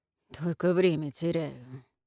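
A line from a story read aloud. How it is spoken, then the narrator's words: Sheriff mutters under breath. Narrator (Russian): пробормотал шериф себе под нос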